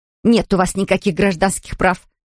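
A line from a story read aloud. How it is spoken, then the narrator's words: Snapped. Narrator (Russian): огрызнулась Лоис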